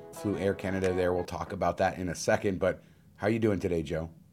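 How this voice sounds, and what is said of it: Slightly tired-sounding voice. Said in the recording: “My voice maybe sounded a little bit different, a little tired”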